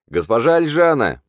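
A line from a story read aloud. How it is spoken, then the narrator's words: Shouted again. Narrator (Russian): прокричали снова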